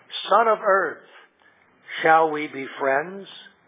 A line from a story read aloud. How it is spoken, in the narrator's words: asked Aslan